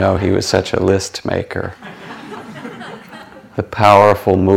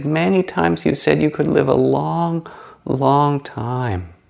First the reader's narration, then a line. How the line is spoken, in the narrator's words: wept and begged and said